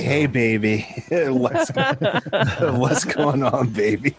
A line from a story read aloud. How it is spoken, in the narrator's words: Luigi greets you